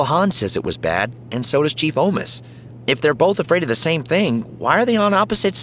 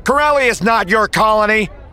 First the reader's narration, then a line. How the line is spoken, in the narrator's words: The occasional shout of